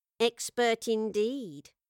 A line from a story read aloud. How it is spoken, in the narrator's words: it added in a nasal, crawling tone